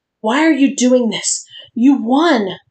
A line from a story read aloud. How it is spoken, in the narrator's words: Linda wheezed